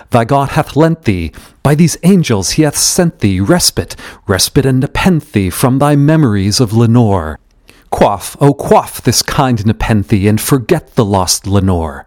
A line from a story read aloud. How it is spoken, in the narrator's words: cried